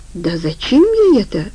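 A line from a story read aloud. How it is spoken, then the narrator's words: Exclaim. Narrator (Russian): воскликнул Омар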